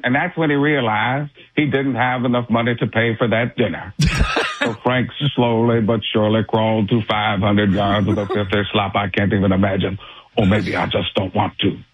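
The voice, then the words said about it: Morgan Freeman impression. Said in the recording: “With a Morgan Freeman”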